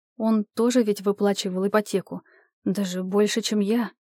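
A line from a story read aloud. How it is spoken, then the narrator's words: Quiet. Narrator (Russian): начала тихо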